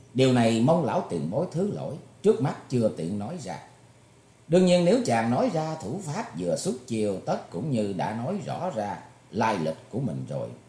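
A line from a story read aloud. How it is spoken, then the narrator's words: Smiling. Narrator (Vietnamese): Thủy Tuấn Hạo mỉm cười nói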